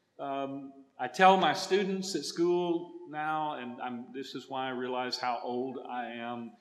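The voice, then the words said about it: Texas accent. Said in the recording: “you're hearing my Texas accent ... English for me as a Texan is a second language”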